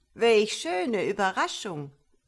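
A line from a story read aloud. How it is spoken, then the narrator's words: Exclaimed. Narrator (German): rief sie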